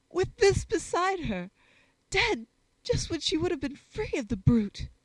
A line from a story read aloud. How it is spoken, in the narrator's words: he exclaimed tragically, with a sob